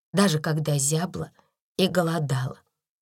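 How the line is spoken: Quiet. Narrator (Russian): тихо проговорила

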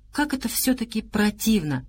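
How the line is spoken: Quiet. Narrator (Russian): негромко произнес Антон Палыч

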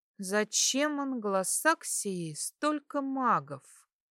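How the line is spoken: Thoughtful drawl. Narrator (Russian): протянула я, обдумывая полученную информацию

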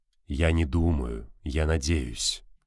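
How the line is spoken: Soft velvety anxious objection. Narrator (Russian): мягко возразил муж Валитары бархатным голосом, в котором читалось волнение, но при этом все же зевнул

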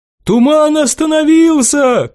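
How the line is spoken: Shouting. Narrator (Russian): крикнул кто-то

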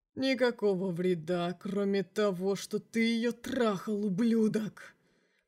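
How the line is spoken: Demon hissing through teeth. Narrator (Russian): процедил сквозь зубы демон

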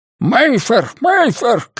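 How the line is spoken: Shouting. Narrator (Russian): крикнул он

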